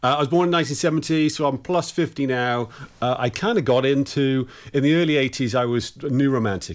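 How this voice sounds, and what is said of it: English accent. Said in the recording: “I'm from England ... it might be something to do with the accent.”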